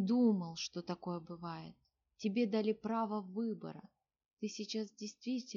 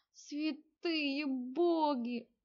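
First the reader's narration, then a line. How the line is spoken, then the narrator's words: Young man howling. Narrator (Russian): взвыл юноша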